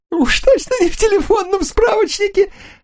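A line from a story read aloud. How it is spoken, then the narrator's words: Loud laugh, quickly subsiding. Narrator (Russian): Руфа расхохотался, но быстро стих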